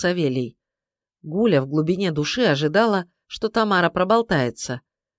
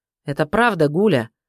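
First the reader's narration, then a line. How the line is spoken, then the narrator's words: Sharp, harsh. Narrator (Russian): Савелий говорил резко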